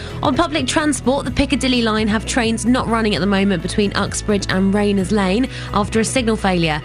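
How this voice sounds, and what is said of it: Chesty, congested voice with a cold. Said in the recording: “I've got a bit of a cold ... A bit of sniffles ... you sound a little bit chesty, a little bit bunged up”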